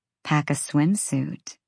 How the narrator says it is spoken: she murmured

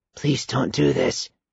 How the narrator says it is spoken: Michael said quietly

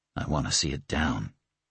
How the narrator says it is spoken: he said, his voice gone husky

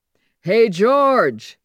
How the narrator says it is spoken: he called loudly

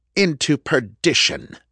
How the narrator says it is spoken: Reverend Morris scoffed

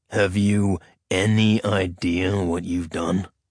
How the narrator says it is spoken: Adarian snarled

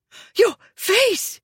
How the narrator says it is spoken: she gasped

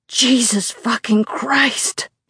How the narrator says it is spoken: he roars

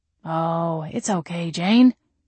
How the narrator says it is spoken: he said in a calm, soothing tone

